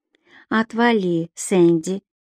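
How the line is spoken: Calm reply. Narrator (Russian): спокойно ответила Дана

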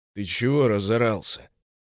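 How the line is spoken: Displeased muttering. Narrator (Russian): Недовольно пробурчал сосед юноши

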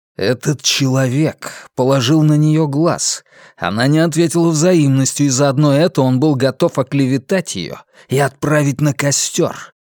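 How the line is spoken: Hissing. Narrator (Russian): прошипел Вивьен

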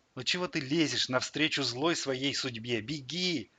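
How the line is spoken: Plain. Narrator (Russian): сказал

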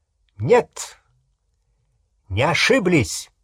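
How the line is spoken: Loud, straining with last strength. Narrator (Russian): Гарри произнес это громко, как только мог, собрав все оставшиеся силы

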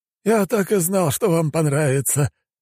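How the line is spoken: Relieved sigh. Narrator (Russian): облегченно вздохнул бочонок в черном

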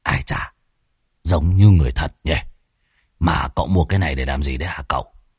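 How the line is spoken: Muttering. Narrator (Vietnamese): Lão Muôn Phọt ròm ròm, lẩm bẩm

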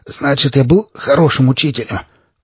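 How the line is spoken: Hoarse, smirking. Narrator (Russian): прохрипел я, усмехаясь

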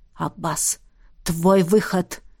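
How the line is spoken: Whisper. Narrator (Russian): прошептал ректор

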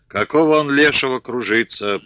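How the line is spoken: Muttering. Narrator (Russian): пробурчал Филя

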